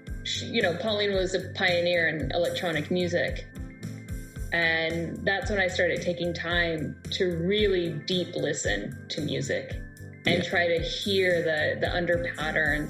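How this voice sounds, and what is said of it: Speaks with a noticeable accent. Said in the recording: “Sometimes my accent gets in the way.”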